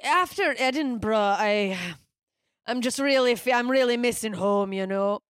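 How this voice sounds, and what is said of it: Put-on Scottish accent, drunk man. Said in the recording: “You're not bad at the accent ... mine is very clearly trying to mimic a drunk Scot. Like it's a man.”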